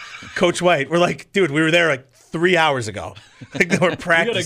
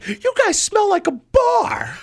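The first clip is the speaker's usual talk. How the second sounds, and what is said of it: High-pitched impression of a coach. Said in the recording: “You got a good impersonation of that guy. ... they're both high pitched.”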